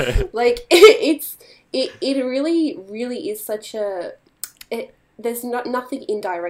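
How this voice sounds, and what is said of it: Usual voice. Nothing is said of it.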